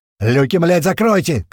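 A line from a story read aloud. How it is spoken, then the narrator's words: Shout. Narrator (Russian): крикнул Апрель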